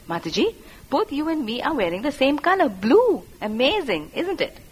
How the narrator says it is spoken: she exclaimed

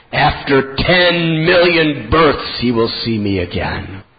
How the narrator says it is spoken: Lord Chaitanya, in an angry, thunderous voice, said

